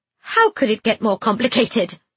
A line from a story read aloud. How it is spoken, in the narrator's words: I spat